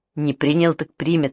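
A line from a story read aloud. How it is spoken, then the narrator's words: Stern, through gritted teeth. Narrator (Russian): сурово процедила матушка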